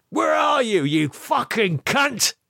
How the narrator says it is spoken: heard him shout

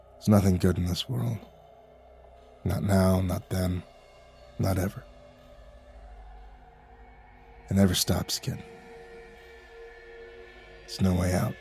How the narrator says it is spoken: murmured

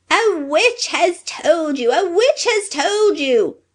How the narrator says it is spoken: shrieked the little man, with rage

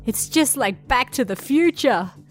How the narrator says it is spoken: the Yankee almost laughed himself to death

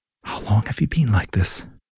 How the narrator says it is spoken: She whispered to a particularly wizzled-looking potato plant

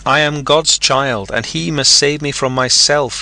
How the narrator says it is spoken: he cried in the darkness

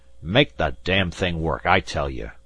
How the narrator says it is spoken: Alten shook his fist in the man's face and bellowed

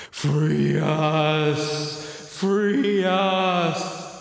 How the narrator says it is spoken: is just moaning

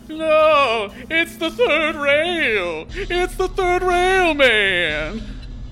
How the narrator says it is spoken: it screams

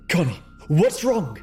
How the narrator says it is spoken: gasped, feeling with each breath that she may choke on her own heart

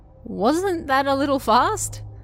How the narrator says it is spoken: said with a laugh

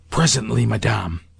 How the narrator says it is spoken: I whispered

